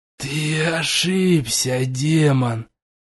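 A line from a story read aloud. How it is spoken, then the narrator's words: Said through gritted teeth. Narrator (Russian): процедил я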